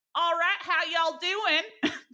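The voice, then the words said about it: Put-on Southern Texas accent. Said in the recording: “those accents ... moved to Texas ... What is your accent?”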